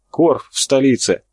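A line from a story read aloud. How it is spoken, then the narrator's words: Breathless. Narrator (Russian): выдохнул чернявый Карабаев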